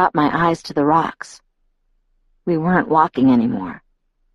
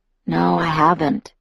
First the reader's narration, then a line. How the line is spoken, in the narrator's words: he said in a low voice